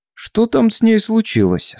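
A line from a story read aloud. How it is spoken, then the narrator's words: Woman's rather sharp question. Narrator (Russian): спросила одна из женщин довольно резким тоном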